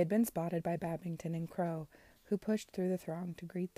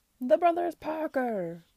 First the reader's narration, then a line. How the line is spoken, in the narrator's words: cried Crow